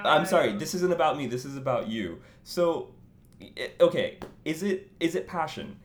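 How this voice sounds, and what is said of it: American accent. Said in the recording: “my American accent. Everyone says that.”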